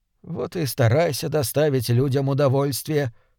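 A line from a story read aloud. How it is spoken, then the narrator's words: Muttered. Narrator (Russian): пробормотал он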